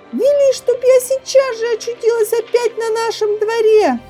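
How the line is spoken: Terrified girl's scream. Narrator (Russian): Не помня себя от страха, Женя закричала

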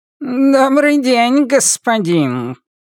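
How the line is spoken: Shrill purring voice. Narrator (Russian): произносит он пронзительным, мурлыкающим голосом

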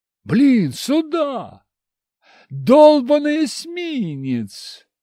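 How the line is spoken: Sudden yell. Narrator (Russian): заорал я, вспомнив об американцах

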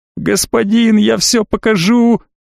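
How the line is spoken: Desperate howl. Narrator (Russian): В очередной раз взвыл эконом

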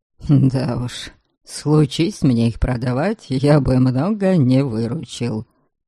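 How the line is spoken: Muttered under breath. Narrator (Russian): пробурчал себе под нос

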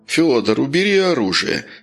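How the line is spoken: Calm. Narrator (Russian): спокойно сказал капитан

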